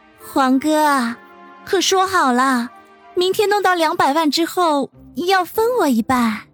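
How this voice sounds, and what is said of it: Cloying, syrupy female voice. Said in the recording (Chinese): “用腻人的声音说道”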